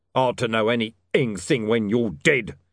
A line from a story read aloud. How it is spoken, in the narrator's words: snarled Mr